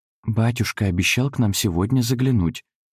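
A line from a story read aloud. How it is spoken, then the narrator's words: Whispered. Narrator (Russian): добавила она шепотом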